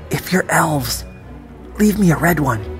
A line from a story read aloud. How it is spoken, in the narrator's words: I whispered